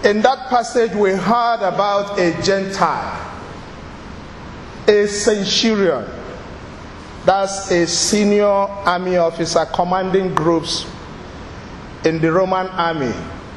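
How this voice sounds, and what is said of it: Nigerian accent. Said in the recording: “Sorry for my accent. I hope you can cope. I'm a Nigerian.”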